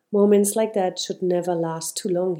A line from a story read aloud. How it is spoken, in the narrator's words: he said